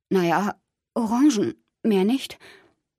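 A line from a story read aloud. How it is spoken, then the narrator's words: Choked voice. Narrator (German): Ich antwortete mit erstickter Stimme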